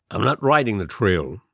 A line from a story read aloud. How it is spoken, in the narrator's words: he replied curtly